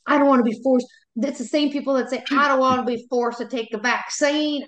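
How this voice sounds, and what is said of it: Put-on Southern accent. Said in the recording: “why I had a Southern accent”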